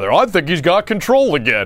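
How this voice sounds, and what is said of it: Imitates another person's voice. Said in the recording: “that Trent Green impression.”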